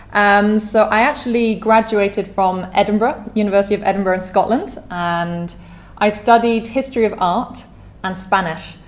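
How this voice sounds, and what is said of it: British accent. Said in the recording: “I'm British. Hopefully you can tell from my accent. I'm from near London.”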